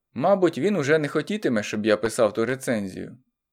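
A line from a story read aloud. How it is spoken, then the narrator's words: Relieved sigh, triumphant. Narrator (Ukrainian): зітхнув я з полегшею, як генерал після переможного закінчення тяжкої кампанії, і сказав пані Марії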